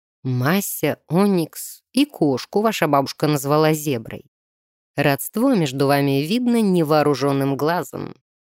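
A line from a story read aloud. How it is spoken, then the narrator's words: Soft, smiling. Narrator (Russian): мягко кончиками губ улыбнулся Тео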